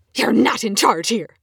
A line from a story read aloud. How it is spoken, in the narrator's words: snarls suddenly